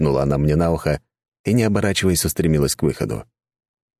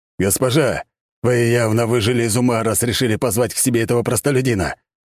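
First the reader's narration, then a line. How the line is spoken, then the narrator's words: Angry, barely restrained shout. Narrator (Russian): гневно выкрикнул Альберт, едва сдерживаясь, чтобы не разломать все вокруг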